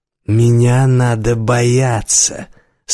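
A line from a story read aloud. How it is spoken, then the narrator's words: Slow, heavily accented. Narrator (Russian): сказал охранник медленно с отчетливым акцентом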